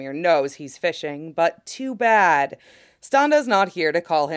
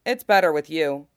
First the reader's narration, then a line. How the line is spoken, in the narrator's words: he says